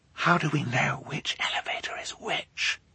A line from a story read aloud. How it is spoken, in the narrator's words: Violet whispered